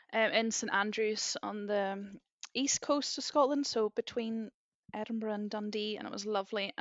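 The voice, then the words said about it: Northern Irish accent. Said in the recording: “I am from Northern Ireland, as many people might pick out from the accent, although I get all sorts of places. Most people think I'm Scottish”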